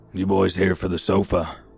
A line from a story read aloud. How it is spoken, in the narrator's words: he said in a gravelly voice, It sounded like he needed to cough, but couldn't get it out